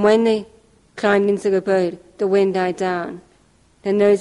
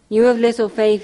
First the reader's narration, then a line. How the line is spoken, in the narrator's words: he said